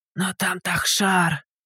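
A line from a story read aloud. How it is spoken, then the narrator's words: Timid stammer. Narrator (Russian): Робко заикнулся мужчина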